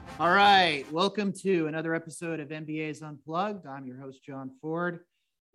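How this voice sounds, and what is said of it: Slightly scratchy voice. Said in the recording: “my voice sounds a little scratchy, it's because last night I was singing in the car”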